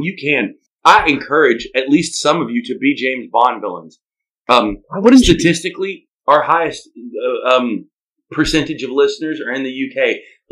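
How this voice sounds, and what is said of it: Exaggerated Southern US accent. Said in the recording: “this ridiculous southern accent”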